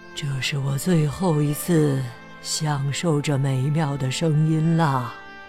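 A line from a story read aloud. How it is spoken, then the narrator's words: Old man, soft reply. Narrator (Chinese): 鲍勃大叔轻声回答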